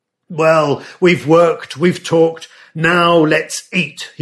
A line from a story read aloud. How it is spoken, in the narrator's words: would roar